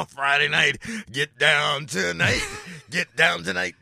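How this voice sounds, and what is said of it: Bad put-on French accent. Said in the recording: “What's with that French accent? It was really bad.”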